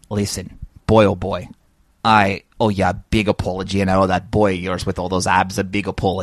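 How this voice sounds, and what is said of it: Put-on Irish accent. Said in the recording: “I know that perfect Irish accent anywhere.”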